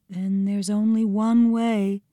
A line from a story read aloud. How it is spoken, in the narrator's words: said, in an almost whisper